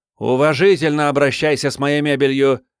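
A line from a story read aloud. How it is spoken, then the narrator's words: Barked reprimand. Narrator (Russian): рявкнула на нее миссис Крэг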